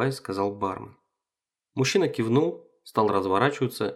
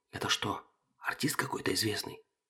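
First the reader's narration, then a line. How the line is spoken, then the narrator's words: Whispered, male. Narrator (Russian): зашептал он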